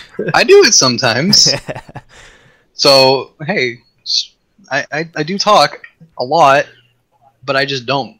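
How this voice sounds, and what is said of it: Raspy, strained voice. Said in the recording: “My voice is getting raspy.”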